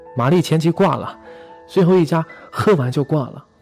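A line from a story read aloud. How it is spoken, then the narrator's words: Excited shout. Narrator (Chinese): 朋友兴奋地喊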